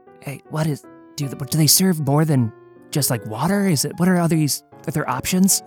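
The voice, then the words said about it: Whispering. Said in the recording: “Kind of whispering”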